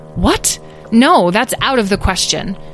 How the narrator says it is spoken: Petra exclaimed

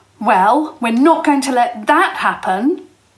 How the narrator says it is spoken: Jasmine proclaimed fiercely

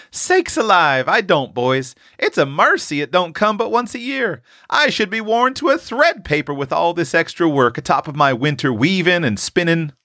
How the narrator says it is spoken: laughed their mother

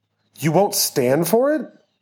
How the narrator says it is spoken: Austin said, nearly shouting

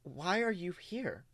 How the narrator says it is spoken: she asks you quietly

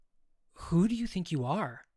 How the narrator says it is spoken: I said, raising my voice

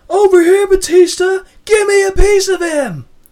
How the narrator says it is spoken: Man in the crowd shouts

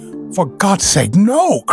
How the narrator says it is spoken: cried Bennett

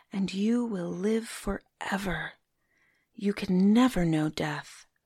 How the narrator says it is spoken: whispered

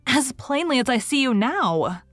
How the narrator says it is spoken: said little James, whose legs were giving way beneath her

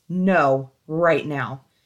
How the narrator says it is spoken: He said in his most authoritative voice

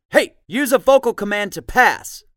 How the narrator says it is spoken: Harvey yells, pissed

